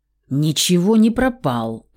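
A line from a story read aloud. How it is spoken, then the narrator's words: Growling. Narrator (Russian): рыкнула в ответ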